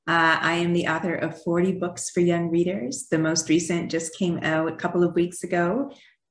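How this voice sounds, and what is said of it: Canadian accent. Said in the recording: “I grew up in Canada ... you'll probably still hear my accent while we're talking, especially when I say out and about.”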